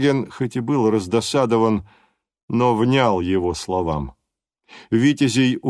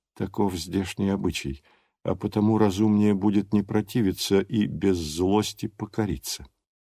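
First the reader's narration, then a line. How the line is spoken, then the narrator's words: Quiet remark, prince. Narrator (Russian): королевич негромко заметил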